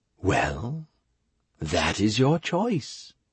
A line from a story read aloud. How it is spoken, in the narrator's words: the siren said calmly